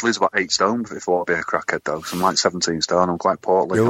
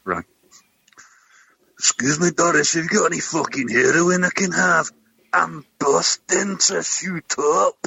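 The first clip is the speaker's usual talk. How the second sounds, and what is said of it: Put-on Scottish accent. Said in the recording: “You'll have to perfect your Scottish accent then. Can you do a Scottish accent now for us, please?”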